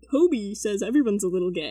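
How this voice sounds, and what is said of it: Imitating a friend's voice. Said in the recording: “I love your impression of me. ... that's how you sound ... Not in seventh grade, that's not what I sounded like.”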